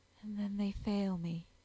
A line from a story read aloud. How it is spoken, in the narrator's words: she murmured